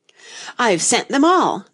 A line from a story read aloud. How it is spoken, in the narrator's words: the King cried in a tone of delight